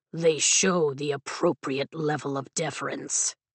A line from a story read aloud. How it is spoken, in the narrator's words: Taryn grumbles